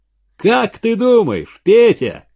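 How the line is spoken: Shout. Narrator (Russian): крикнул

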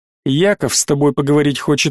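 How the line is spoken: Plain. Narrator (Russian): ответил посланец

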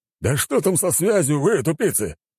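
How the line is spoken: Barked. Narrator (Russian): рявкнул Рагнор, недовольно

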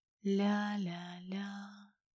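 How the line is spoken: Soft sing-song with smile. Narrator (Russian): пропела Ольга, мягко улыбнувшись

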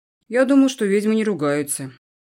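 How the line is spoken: Sudden snort. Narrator (Russian): неожиданно хмыкнул Эдвин

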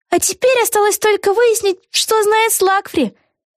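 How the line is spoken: Joyful exclamation. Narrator (Russian): радостно воскликнула Вега

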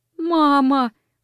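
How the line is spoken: Sobbing. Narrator (Russian): рыдая сказала

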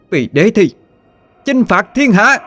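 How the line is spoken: Thousands shouting together. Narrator (Vietnamese): Mấy ngàn người đồng thời hét to

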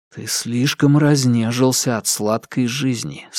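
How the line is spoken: Plain, to himself. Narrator (Russian): сказал он себе

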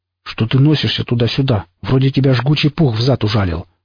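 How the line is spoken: Grumbling. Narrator (Russian): проворчал он

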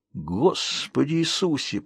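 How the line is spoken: Shocked mutter. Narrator (Russian): пробормотал Калеб, сам пораженный кровавой бойней, которую учинил

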